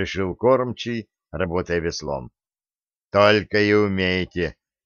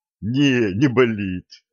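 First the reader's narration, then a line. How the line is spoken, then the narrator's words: Sailor's short laugh. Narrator (Russian): хохотнул корабельщик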